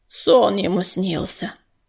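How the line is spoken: Grumbling voice. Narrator (Russian): Проворчал еще один голос

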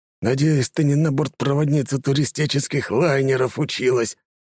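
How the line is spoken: Through gritted teeth. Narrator (Russian): сквозь зубы цедит Басилевс

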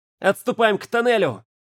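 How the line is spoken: Shouted. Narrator (Russian): закричал

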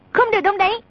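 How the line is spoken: Sharp shout. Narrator (Vietnamese): A Tử quát

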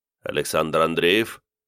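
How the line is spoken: Quiet calm even question. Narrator (Russian): тихо, спокойным ровным голосом спросил один из пришедших

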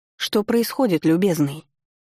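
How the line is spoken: Stern question. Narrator (Russian): Строго спросила я у скандалиста

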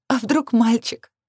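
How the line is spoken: Laughing through happy tears. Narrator (Russian): Я рассмеялась сквозь слезы, уже не злые, а счастливые

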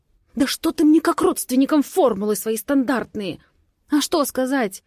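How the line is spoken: Nervous hiss. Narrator (Russian): Срываюсь на нервное шипение

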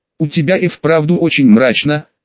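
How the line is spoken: Plain. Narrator (Russian): сказала Гермиона

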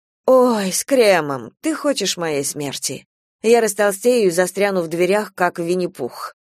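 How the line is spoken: Sighing. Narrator (Russian): вздохнула Надежда

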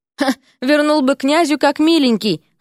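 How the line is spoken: Amused snort. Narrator (Russian): хмыкнул Эрик

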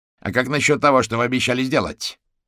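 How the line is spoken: Sharp question. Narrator (Russian): резко спросил гусеница

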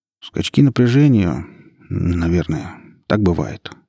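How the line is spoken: Unsure mumble, young man. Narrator (Russian): неуверенно промямлил парень, сам не веря в то, что говорил

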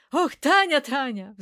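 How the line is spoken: Sighed. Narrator (Russian): вздохнул Попадян

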